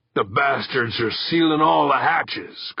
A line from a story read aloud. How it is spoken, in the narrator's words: Kirk growled